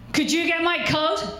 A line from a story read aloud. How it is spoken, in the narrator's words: he shouts at her from his seat